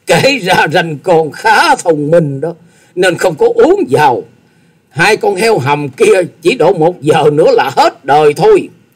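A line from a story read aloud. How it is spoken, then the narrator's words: Loud laughter. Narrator (Vietnamese): Tư Đồ Hạnh cười to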